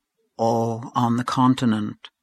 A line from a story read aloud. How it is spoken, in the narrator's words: murmured Aunt Julia